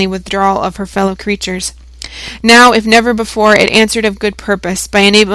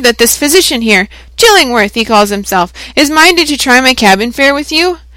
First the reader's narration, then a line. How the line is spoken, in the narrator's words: cried the shipmaster